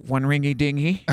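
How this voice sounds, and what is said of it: Imitates a nasal telephone operator voice. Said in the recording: “I was going to do my imitation.”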